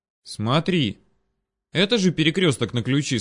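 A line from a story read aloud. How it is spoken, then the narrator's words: Plain. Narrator (Russian): спросил я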